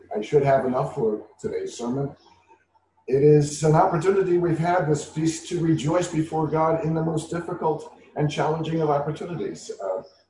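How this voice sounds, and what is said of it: Raspy, weakened voice. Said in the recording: “I'm a little raspy this morning... my voice has decided to abandon me”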